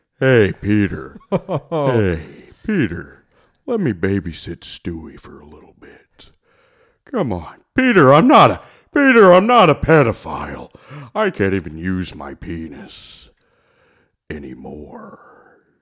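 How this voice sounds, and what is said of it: Cartoon character voice. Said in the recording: “did the Joe Swanson voice.”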